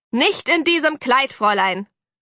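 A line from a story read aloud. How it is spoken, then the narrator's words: Mother calling after. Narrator (German): rief Mami hinterher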